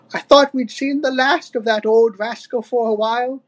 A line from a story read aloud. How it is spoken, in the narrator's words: sighed Wrinkly Kong